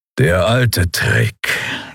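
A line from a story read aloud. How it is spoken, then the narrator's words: Grudging growl. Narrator (German): knurrte Kero mit widerwilliger Anerkennung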